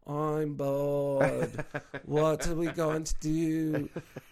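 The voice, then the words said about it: Imitated thick Australian accent. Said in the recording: “they're all Australians ... with thick Australian accents.”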